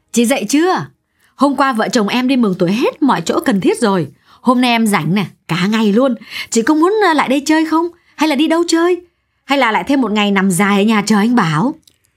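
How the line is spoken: Cheerful, excited. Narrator (Vietnamese): Giọng Hiên hớn hở

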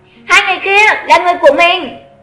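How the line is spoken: Raised voice. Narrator (Vietnamese): cao giọng nói

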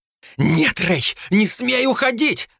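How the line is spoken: Alarmed shout. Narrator (Russian): закричала Ребекка, увидев, что я освободился

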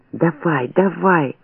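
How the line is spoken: Urgent whisper. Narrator (Russian): шептал Блохин

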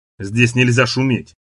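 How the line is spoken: Stern old man's warning. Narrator (Russian): строго предупредил старик

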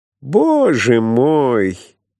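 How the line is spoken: Thin, near tears. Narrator (Russian): тонким голосом сказал вдруг Драйер, словно готов был прослезиться

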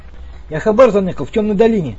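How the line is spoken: Hurried blurt. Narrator (Russian): торопливо выложил пленный

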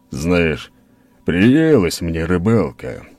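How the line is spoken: Low booming voice. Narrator (Russian): прогудел Скала

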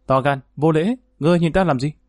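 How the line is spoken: Angry shout. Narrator (Vietnamese): nàng bất giác tức giận quát

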